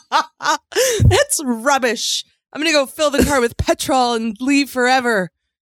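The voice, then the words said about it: Put-on British accent. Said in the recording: “Probably breaking out in a Brit. That's it's rubbish, he's saying in his British accent”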